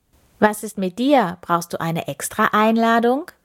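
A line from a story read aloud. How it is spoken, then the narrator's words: Plain question. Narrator (German): fragte sie Kirko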